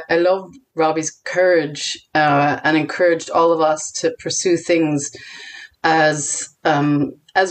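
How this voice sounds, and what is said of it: American accent with Irish influence. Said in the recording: “to American people, I sound Irish, but my accent is actually American with Irish influence ... to Irish people, I sound very American”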